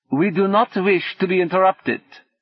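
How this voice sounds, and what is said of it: Distinctly Germanic accent. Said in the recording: “said someone with a distinctly Germanic accent”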